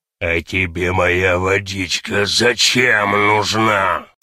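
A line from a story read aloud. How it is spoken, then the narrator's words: Quiet hoarse small voice. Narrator (Russian): такой сиплый голосок отзывается тихонько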